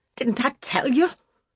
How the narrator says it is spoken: she cried roughly

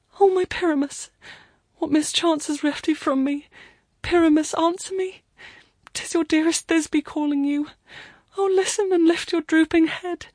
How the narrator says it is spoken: she wailed

